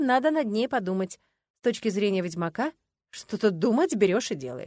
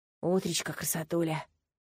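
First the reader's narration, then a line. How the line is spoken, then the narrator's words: Loud whispered greeting. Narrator (Russian): громким шепотом поздоровался Даррен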